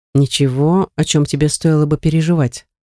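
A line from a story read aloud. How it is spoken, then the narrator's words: Calm. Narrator (Russian): заметил он спокойно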